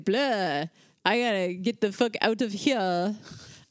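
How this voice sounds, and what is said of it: Weak attempt at French accent. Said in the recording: “I can't do a French accent, sorry.”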